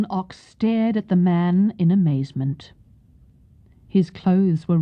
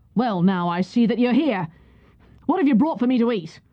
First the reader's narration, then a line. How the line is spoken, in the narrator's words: one of the soldiers said roughly